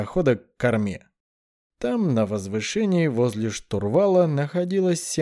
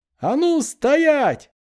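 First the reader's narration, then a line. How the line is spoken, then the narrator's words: Loud shout over noise. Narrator (Russian): крикнул громко, перекрывая шум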